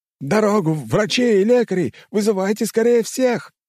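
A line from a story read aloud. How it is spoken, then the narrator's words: Yelling over radios, running. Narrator (Russian): орали в рации люди на службе, которые уже бежали сюда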